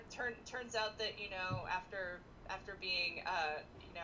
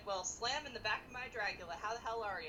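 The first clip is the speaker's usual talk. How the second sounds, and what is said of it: Put-on Southern accent. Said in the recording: “I don't know why I made him Southern.”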